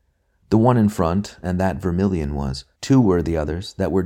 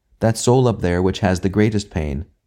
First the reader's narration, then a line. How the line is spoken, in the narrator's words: the master said